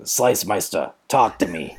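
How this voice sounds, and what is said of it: Imitates another person's voice. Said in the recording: “that's my Paulie imitation.”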